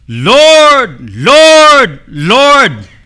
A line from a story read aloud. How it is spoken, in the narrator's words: They shouted 3 times